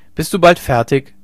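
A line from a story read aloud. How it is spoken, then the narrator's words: Calling out. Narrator (German): rief Hauke ihr zu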